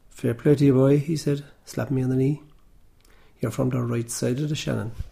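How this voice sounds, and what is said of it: Irish Cork accent. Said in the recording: “a benevolent Cork accent”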